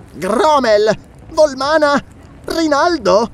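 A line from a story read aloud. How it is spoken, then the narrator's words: Exclaimed. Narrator (Italian): esclamò Publio, il primo consigliere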